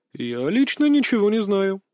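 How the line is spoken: Laughing. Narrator (Russian): рассмеялся Рейк

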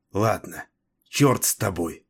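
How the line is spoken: Hoarse mutter. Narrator (Russian): хрипло пробормотала она

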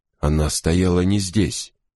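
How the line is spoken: Hoarse rasp. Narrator (Russian): прохрипел Крози

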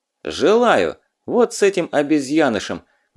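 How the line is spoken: Rough. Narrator (Russian): грубо сказал Лёва

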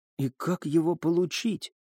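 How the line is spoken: Whispered question. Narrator (Russian): шепотом спросила Элина

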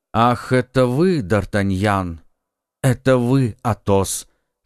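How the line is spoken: Plain. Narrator (Russian): сказал молодой человек

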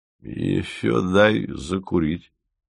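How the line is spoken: Uncertain blurt. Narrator (Russian): ляпнул он неуверенно

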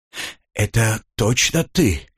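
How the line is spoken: Relieved exhale. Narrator (Russian): успокоенно выдохнул Лок

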